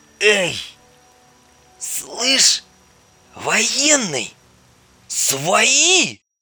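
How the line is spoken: Groaning from bushes. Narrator (Russian): Простонали из кустов

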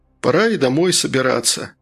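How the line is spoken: Sigh. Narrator (Russian): Матье вздохнул

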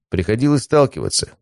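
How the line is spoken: Calm. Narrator (Russian): спокойно ответил я

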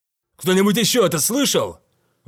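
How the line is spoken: Exclaimed. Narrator (Russian): воскликнул Ван Микельсон

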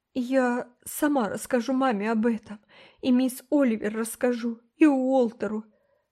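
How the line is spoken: Breathless between sobs. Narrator (Russian): выдохнула Рила в промежутках между новыми хлюп-хлюп

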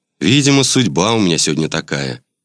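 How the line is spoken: Sigh. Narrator (Russian): вздохнул я

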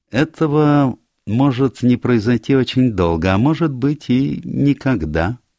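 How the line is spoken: Sad remark. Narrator (Russian): печально заметил детектив

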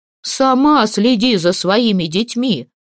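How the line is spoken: Vexed shouting. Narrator (Russian): кричал Ульмат, и лицо его от досады было таким же красным, как недавно от усталости

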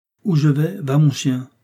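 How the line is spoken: Plain. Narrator (French): avait dit Vargas

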